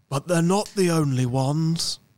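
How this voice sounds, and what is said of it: Imitates another person's voice. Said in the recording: “That's my Attenborough ... David Attenborough impressions”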